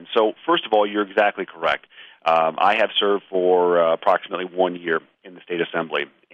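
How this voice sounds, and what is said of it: Hoarse voice from a cold. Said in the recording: “if I sound a bit hoarse ... I have acquired a cold, so I'm sorry if I sound a bit odd today”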